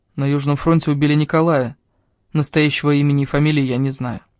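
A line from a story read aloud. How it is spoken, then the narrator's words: Quiet, gloomy. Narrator (Russian): Он помрачнел и тихо сказал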